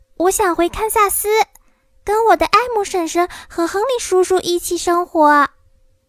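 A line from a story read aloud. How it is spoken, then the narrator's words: Loud. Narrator (Chinese): 多罗西大声说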